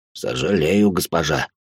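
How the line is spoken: Creaky dwarf voice. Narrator (Russian): проскрипел карлик

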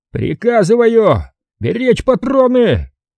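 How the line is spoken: Frantic yelling, unnatural voice. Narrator (Russian): снова заорал не своим голосом Смирных

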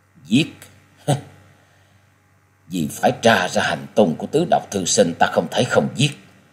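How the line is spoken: Sighing mutter. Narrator (Vietnamese): cất lên tiếng thở dài lẩm bẩm

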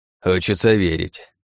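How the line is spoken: Old man's sigh. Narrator (Russian): вздохнул дед

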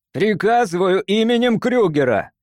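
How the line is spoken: Angry shout. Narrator (Russian): разозлившись, закричал Кинрос

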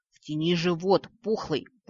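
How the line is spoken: Irritated hiss. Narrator (Russian): прошипел лорд Винатор, которому уже порядком надоела сложившаяся ситуация

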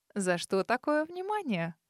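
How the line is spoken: Sly mocking question. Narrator (Russian): С усмешкой поинтересовалась я ехидно

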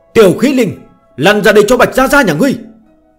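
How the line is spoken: Excited loud shout. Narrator (Vietnamese): Bạch Tiểu Thuần phấn chấn, cất cao giọng, hét lớn một tiếng

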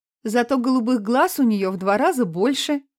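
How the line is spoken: Giggling. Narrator (Russian): хихикнула Танина мама

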